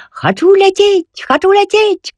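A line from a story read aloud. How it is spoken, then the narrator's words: Shouted. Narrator (Belarusian): крыкнуў ён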